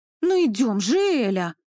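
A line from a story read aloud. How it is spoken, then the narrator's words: Exclaiming. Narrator (Russian): воскликнула Настя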